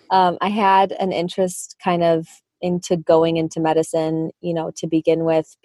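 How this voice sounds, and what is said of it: Midwestern American accent, hard A. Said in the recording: “shout out to my Midwest accent. If you pick up on it today, everyone says I have a really hard A.”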